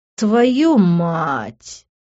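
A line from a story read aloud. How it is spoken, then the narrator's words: Pained groaning. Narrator (Russian): мог только стонать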